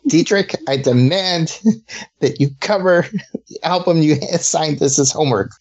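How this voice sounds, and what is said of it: Stern parent voice, not very convincing. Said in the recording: “do my stern parent voice ... That's your parent's voice. Your kid's going to run all over your ass.”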